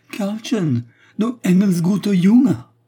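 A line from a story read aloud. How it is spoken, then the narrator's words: Overjoyed mother yelping. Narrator (French): glapit sa mère éperdue de joie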